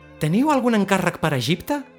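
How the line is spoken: Shouted. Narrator (Catalan): li va cridar

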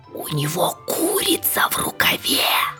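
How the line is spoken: Crowd whispering. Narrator (Russian): все зашептали друг другу

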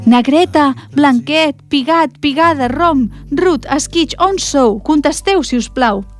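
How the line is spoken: Calling out one by one. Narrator (Catalan): Va cridar els cabridets un per un

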